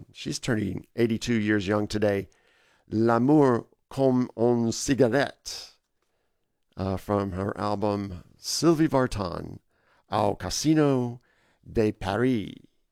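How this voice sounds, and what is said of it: Hoarse, fading voice. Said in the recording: “Slightly losing my voice. It's all of a sudden just started up on me”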